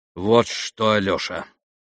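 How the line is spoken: Firm voice. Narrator (Russian): проговорил Иван твердым голосом

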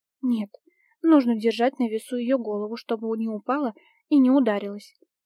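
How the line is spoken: Sigh. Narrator (Russian): вздохнула ведьма

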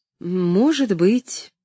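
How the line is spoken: Uncertain. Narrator (Russian): неуверенно ответила Нэнси

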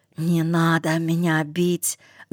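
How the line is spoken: Frightened pleading whisper. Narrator (Russian): зашептал он

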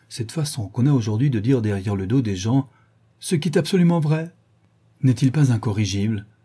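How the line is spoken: Exclaimed. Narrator (French): s'écria Dorian

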